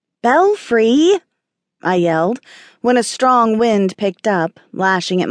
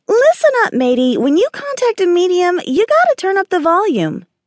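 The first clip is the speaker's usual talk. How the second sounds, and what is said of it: Squeaky munchkin voice. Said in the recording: “Belfry squeaked in his munchkin voice”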